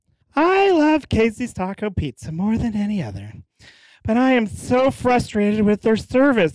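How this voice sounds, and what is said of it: Reading in a funny voice. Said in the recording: “bad review in a funny voice.”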